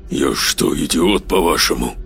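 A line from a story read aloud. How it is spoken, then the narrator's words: Spiteful mutter into microphone. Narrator (Russian): Злобно процедил Саид в микрофон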